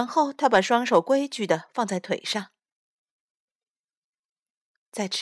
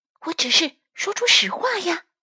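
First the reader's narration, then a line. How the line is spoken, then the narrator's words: Low, firm voice. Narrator (Chinese): 丽丽也压低声音，并且语气坚定的回答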